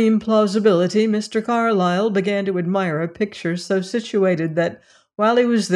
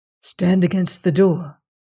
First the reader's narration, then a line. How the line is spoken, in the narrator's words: said Carrados in a sharp whisper